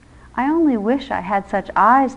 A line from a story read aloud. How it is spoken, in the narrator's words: the king remarked in a fretful tone